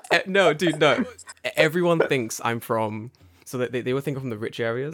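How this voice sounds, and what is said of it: Posh North London English accent. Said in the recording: “I thought you're like from Harrow, that kind of area, like from your accent ... you have like a very Harrow, posh accent.”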